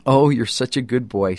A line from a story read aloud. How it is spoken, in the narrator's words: she said